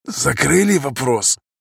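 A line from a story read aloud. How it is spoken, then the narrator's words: Hoarse question. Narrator (Russian): хрипло спросил он у Зимникова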